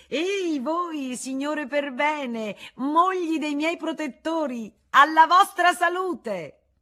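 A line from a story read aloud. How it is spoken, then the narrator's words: Shouted toast. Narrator (Italian): disse Rosanette, gridò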